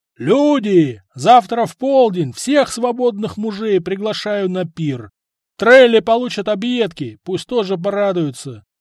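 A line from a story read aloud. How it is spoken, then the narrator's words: Jarl shouting. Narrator (Russian): крикнул ярл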